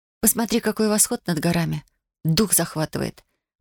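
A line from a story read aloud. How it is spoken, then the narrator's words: Muttered. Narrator (Russian): пробормотала Татьяна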